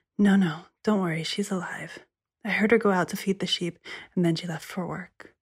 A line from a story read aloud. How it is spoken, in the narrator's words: The sister said, whispering